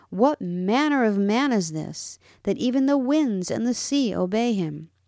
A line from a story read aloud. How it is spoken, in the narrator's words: Jesus' own disciples were exceedingly amazed and marveled when he commanded the wind and the waves of the sea and cried out